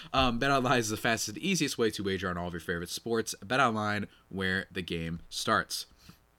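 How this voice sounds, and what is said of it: Slightly nasal, congested voice. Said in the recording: “if I sound a little nasally, well, it's because I am”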